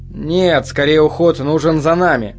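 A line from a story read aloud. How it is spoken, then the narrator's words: Gloomy reply. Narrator (Russian): мрачно ответил Коппер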